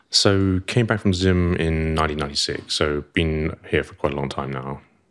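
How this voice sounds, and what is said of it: Clipped old-school posh British accent. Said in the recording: “You've got that soldier accent. ... the clipped vowels, and... And the old school posh British accent.”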